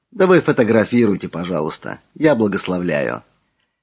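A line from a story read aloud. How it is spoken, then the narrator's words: Soft smiling. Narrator (Russian): улыбнулся и мягко сказал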